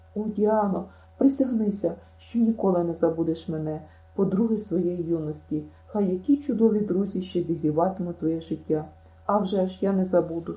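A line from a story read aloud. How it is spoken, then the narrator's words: Sobbing. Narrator (Ukrainian): схлипнула Діана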